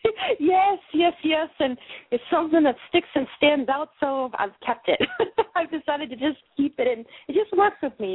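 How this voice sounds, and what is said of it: Boston accent. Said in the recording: “you had an accent... it's a Bostonian accent”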